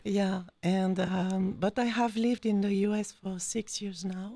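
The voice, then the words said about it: French accent. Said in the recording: “You can hear my accent. ... I am French.”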